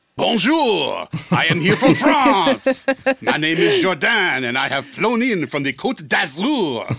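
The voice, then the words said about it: Put-on French accent. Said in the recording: “Did I just offend all the French listeners with my accent? ... you got to bust out your French accent”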